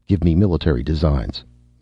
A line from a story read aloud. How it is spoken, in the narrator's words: he ordered sharply